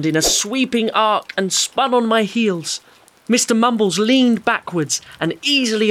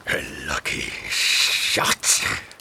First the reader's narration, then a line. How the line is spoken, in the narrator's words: he growled